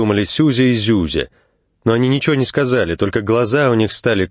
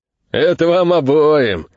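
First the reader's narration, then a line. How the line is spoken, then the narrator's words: Laughing speech. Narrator (Russian): смеясь сказал Дед Мороз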